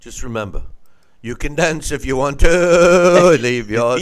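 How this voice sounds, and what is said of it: Sung imitation of another person's voice. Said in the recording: “That was a good impression”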